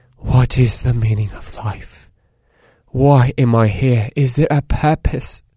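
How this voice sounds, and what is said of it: Poor dramatic British accent. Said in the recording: “I went dramatic with a British accent ... That was a terrible kind of British accent”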